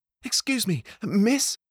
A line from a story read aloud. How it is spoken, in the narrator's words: said, panting